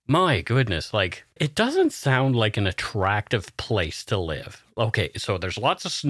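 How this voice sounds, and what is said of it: Usual voice. Nothing is said of it.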